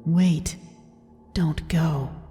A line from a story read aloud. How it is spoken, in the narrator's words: I heard a voice behind my right ear, as if someone had whispered to me